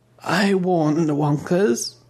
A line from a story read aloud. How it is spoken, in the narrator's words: old Baroness sighed